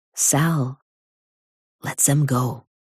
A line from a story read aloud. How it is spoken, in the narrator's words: Aaron whispers